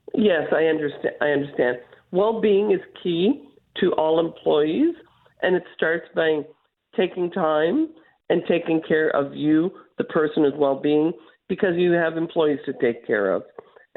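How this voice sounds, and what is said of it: Voice affected by a cold. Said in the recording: “Sorry about my voice. I caught a cold this morning.”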